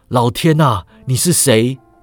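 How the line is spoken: Old man shouting. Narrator (Chinese): 老人大叫

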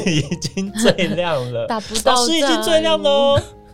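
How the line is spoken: Amid roaring laughter. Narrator (Chinese): 全场爆笑，说

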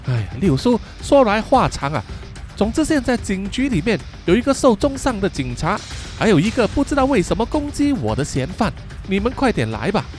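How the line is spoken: Breathless. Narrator (Chinese): 气喘吁吁的以乔 对六叔说

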